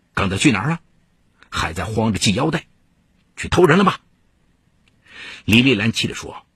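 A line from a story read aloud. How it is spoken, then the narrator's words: Cold. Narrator (Chinese): 孟家强冷冷说道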